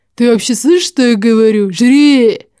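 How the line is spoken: Growl. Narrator (Russian): Карл рыкнул

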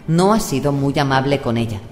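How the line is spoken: Mildly disapproving. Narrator (Spanish): dijo Caris en tono ligeramente desaprobatorio

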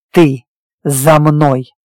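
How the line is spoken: Barked. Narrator (Russian): рявкнул я

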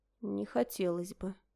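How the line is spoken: Quiet reply. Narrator (Russian): тихо отозвалась я

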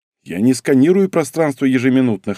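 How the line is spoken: Snorting chuckle. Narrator (Russian): хмыкнул я

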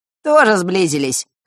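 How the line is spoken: Snorting chuckle. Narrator (Russian): хмыкнул Данила

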